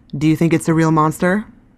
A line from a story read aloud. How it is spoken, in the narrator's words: I asked